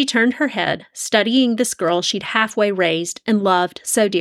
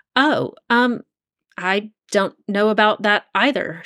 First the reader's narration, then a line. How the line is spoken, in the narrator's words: stammered